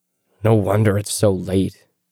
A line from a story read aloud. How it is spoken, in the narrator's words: he grumbled